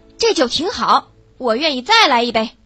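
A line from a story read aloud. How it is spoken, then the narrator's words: Loud. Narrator (Chinese): 他大声道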